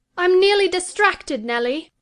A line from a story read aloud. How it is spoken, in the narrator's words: she exclaimed